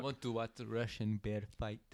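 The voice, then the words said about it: Put-on Russian accent. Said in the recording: “that's your accent. ... That sounded pretty Russian to me. ... It's not bad.”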